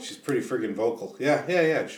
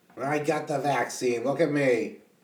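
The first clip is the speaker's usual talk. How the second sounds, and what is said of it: Impression of Rosie O'Donnell. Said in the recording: “Sure, Rosie O'Donnell. ... I don't know if that's a bad impression or not.”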